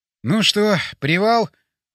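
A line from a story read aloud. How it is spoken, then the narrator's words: Sighed. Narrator (Russian): вздохнул я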